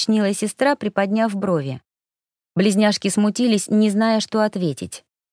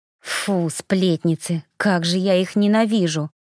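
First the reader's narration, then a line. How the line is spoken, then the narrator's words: Grumble. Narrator (Russian): буркнула сестра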